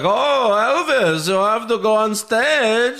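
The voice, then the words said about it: Imitates a weird movie accent. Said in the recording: “With the weird accent ... gold member”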